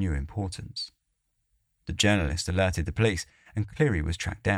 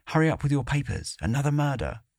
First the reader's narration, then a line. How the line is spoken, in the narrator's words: he blurted out